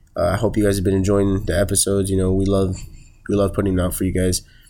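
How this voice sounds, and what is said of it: Sick, weird-sounding voice. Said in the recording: “I'm kind of sick, so I sound weird”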